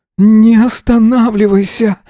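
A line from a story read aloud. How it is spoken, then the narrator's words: Aroused exclamation. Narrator (Russian): воскликнул он, ощущая, что вот-вот кончит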